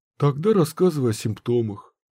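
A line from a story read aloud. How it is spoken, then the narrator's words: Sighing. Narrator (Russian): вздохнул он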